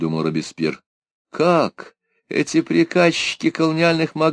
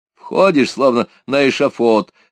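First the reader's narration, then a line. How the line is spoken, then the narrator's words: Fairly loud speech. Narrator (Russian): сказал довольно громко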